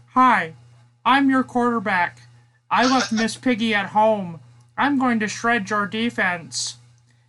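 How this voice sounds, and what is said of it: Kermit the Frog character voice. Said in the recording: “Let's see if I can do this voice correctly ... Kermit the Frog”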